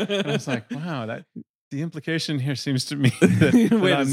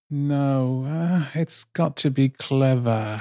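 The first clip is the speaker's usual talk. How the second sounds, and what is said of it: Nicole Kidman impression. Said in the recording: “Good Kidman impression”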